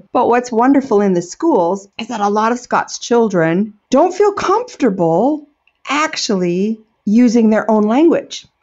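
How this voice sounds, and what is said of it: Strong American accent. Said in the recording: “I'm not a natural Scots speaker, as you can tell ... it's a terrible Wisconsin Scot accent ... I have such a strong American accent”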